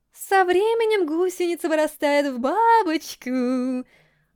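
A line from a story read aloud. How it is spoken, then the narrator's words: Singsong female voice. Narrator (Russian): нараспев произнесла она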